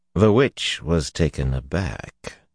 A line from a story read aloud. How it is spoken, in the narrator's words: he murmured